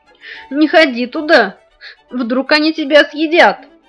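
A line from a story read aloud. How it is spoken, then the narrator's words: Whimpering. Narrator (Russian): захныкала Маша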